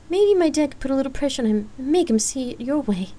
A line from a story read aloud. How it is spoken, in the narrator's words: Lark chuckled